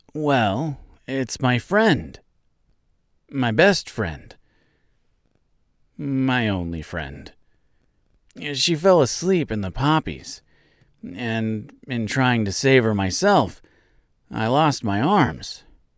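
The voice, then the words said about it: Sad character voice. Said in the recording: “he said in a sad voice”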